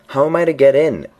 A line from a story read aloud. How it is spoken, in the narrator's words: asked Alice, in a louder tone